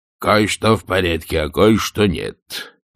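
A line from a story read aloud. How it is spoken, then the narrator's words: Deep bass voice. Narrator (Russian): пробасил дядя Генри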